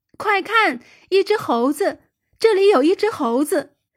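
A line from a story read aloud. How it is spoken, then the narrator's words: Shouting. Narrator (Chinese): 他边叫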